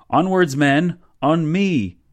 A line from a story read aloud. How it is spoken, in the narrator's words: he yelled